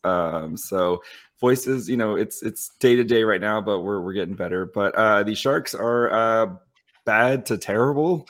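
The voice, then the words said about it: Raspy, partly lost voice. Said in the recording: “My voice is a little raspy right now. I lost my voice. ... lost my voice.”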